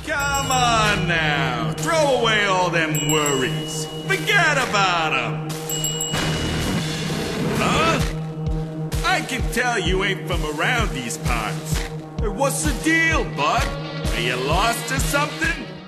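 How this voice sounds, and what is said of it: Death character with Brooklyn accent. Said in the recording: “Death, who's a recurring figure in the series, and for some reason in the game has a Brooklyn accent ... a funny Brooklyn voice”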